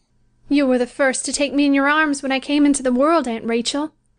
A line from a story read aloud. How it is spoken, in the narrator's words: she had said